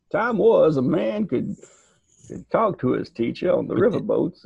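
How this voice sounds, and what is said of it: Put-on old-timey country accent. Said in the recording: “I can do many an impersonation ... Did that accent stand out in Alabama, though? ... He do my pappy's voice? ... Why are you talking normally?”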